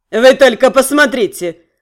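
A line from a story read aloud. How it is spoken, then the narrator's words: Snorting. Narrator (Russian): хмыкнул он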